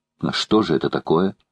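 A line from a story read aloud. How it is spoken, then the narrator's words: Plain. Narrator (Russian): спросила леди Элен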